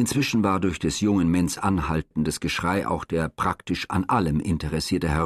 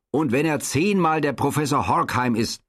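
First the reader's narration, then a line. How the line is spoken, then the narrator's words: Uncontrolled young man's roar. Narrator (German): brüllte der junge Herr Menz unbeherrscht weiter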